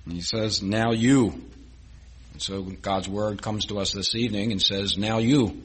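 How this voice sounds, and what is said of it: Slight Philadelphia accent. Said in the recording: “That's a little Philadelphian accent there.”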